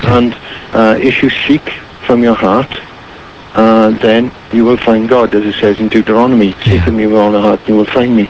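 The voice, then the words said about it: Welsh accent. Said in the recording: “lovely to hear that Welsh accent again”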